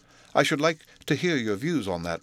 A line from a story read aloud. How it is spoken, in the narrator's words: replied Utterson